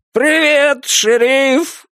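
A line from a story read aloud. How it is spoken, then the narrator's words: Full-throated yell. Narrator (Russian): во всю глотку заорал он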